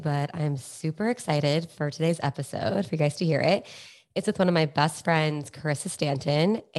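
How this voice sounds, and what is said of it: Nasal, congested voice. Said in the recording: “I'm a little bit under the weather, so I sound a little nasally”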